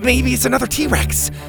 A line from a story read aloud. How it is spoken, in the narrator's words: Bo said excitedly